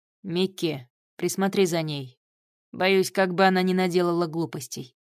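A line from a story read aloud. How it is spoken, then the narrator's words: Calm. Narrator (Russian): спокойно сказал Гриша оборотню с дредами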